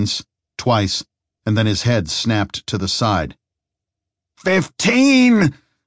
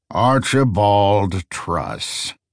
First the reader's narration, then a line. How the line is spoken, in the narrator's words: he said, his voice booming over the fire